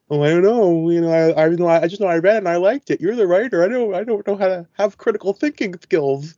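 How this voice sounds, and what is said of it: Goofy mocking cartoon yeehaw voice. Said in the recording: “do that voice ... goofy mockery voice ... It's not of a specific region necessarily ... goofy cartoon voice ... monster truck yeehaw”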